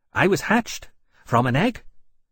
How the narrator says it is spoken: Volatilis said, in a bright voice

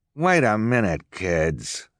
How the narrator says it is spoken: Esme snarled

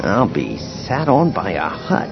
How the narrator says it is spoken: he murmured

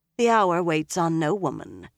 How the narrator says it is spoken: Shiriam replied

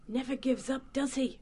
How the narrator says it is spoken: Jess muttered to Sam from the side of her mouth

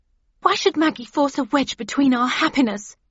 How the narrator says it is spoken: demanded angrily

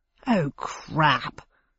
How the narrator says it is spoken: said Bradshaw under his breath

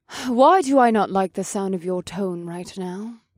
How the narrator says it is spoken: Vanessa sighed

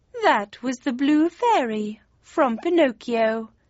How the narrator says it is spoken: said the cat, as he began to purr

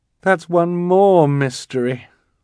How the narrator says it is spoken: Violet said sadly

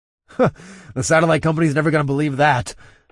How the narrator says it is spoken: I chuckled to myself

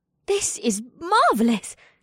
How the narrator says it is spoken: She gasped

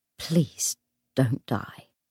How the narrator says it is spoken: she said in a low voice

